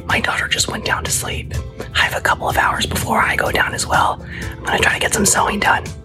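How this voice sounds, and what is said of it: Whispering. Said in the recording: “I'm whispering because I don't wanna wake her up”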